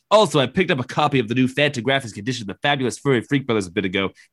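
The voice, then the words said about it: Imitates another person's voice. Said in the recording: “you need to start looking at Robert Evans. He's got the best voice in the business... the best voice in the game... the rest of this email is going to be read like this”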